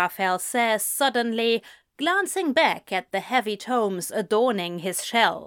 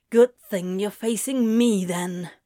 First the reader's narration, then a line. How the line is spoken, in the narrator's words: grunts Crowley